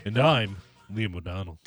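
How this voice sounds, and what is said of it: Deep announcer-style radio voice. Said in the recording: “my radio voice ... It's so good, dude. It's so good.”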